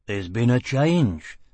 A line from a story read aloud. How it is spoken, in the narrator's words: Dagenham said dryly